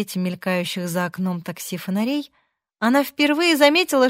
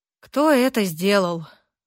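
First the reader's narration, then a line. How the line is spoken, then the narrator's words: Breathed out. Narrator (Russian): выдохнул ветеринар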